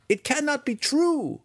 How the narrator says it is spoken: one student cried from the side

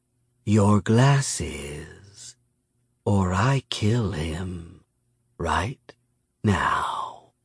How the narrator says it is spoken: Miyamune purred

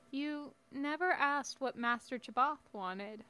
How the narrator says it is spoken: the boy added quietly

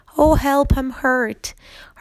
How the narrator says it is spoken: cried

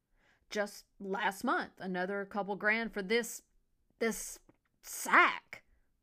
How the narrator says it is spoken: Henry sputtered in his frustration

